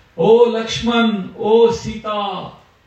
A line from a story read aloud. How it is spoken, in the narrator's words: Exactly imitating Ram's voice, he shouted